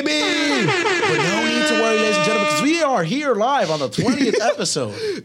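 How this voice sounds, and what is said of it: Booming announcer-style voice. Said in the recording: “You have that announcer voice. ... That's the infomercial guy right there.”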